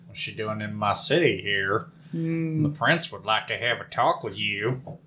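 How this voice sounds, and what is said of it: Put-on southern sheriff accent. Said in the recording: “Where is the city with that accent? ... somewhere in the south, probably”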